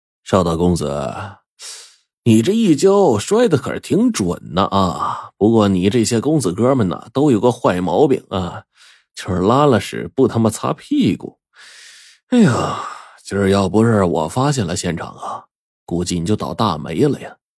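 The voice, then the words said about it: Glib, oily, smooth-talking voice. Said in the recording (Chinese): “油腔滑调的声音”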